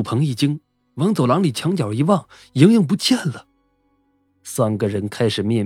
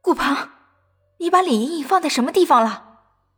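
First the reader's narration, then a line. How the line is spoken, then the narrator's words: Sudden cry. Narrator (Chinese): 突然，菲菲叫了起来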